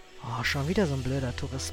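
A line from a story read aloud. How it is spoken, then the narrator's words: Muttering to himself. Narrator (German): brummelte der Holzfäller mehr zu sich selber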